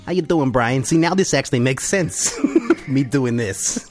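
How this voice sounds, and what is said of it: Terrible put-on Boston accent. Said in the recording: “the terrible Boston accent”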